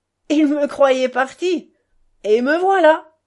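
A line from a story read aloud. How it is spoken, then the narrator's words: Booming shout. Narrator (French): cria-t-il d'une voix retentissante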